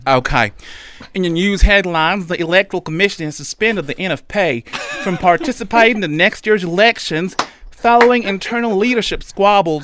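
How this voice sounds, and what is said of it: Put-on American Deep South accent. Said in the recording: “United States, deep south. Yo, I can't do the accent, but ... can... Oh, good at that.”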